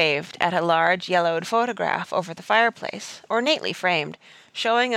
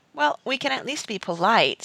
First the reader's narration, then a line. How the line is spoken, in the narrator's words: said Jane